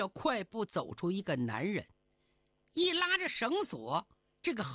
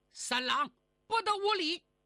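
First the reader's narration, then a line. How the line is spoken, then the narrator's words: Loud shout. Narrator (Chinese): 屋里边有人大喊一声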